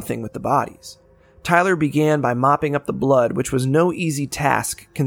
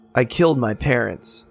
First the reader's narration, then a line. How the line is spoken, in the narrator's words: Tyler said